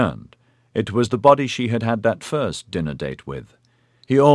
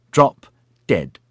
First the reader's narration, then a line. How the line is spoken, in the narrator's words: snapped